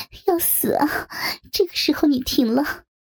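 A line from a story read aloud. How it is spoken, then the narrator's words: Cheeky grinning tone. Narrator (Chinese): 他嬉皮笑脸的说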